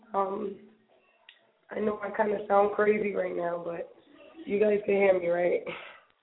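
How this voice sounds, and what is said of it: Hoarse voice. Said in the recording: “excuse my voice right now because it's hoarse.”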